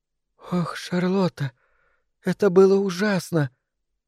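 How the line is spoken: Tearful quiet sobbing. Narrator (Russian): Она сморгнула слезы и принялась тихонько всхлипывать

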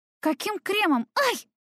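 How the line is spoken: Shrill squeal. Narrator (Russian): взвизгнула

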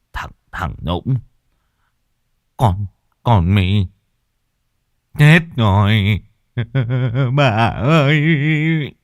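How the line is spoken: Stammering old man. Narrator (Vietnamese): Lão Sửu lắp bắp

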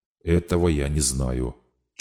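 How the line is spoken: Barely audible, from a screen. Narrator (Russian): чуть слышно ответили губы с экрана

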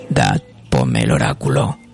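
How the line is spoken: Sudden, very deep voice. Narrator (Spanish): Súbitamente dice, con una voz muy grave

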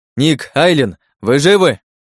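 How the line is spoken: Shouted. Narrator (Russian): крикнул я

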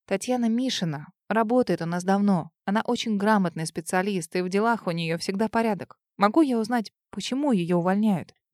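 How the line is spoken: Soft, guarded. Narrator (Russian): Мягко начала с внутренней настороженностью

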